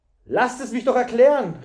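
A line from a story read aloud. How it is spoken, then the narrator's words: Called out. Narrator (German): rief Thury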